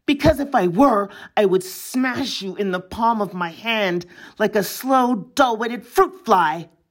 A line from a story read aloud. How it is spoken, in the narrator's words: said, and added fiercely